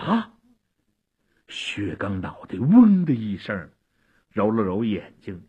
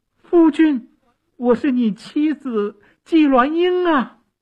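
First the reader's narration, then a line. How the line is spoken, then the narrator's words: Loud call. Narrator (Chinese): 纪鸾英 大声地叫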